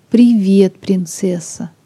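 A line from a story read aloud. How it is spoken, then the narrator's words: Soft. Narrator (Russian): мягко сказал Сэнди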